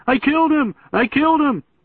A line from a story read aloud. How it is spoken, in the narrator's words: Mike, where I found him screaming